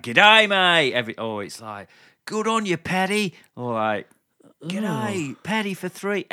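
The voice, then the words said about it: Mock Australian accent. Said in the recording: “this fake, like, mock Australian accent”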